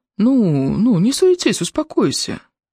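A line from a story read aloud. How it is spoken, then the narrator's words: Soft interruption. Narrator (Russian): мягко перебил ее Мак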